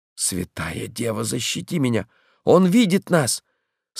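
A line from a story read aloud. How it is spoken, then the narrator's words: Weak voice. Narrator (Russian): слабым голосом сказал Мэтчем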